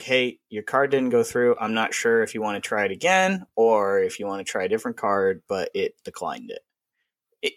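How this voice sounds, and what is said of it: Calm, quiet, polite tone. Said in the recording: “In that tone of voice, okay? I was not being loud. I was not being boisterous or anything.”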